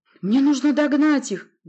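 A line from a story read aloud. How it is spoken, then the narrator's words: Fervent exclamation. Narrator (Russian): горячо воскликнул я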